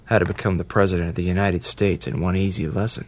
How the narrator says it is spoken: Paul muttered

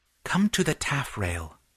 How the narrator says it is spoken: whispered Fitz

